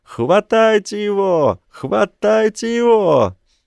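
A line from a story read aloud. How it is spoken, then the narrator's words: Cat captain yelling over crowd. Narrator (Russian): Поверх ропота трибун капитан котов вопит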